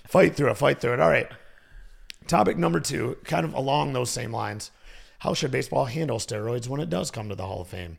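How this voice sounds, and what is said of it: Slightly hoarse voice. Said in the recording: “I am battling a little bit of a cold... Voice getting a little hoarse”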